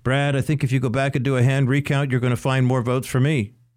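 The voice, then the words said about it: Bad Donald Trump impersonation. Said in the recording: “bad Trump impersonation”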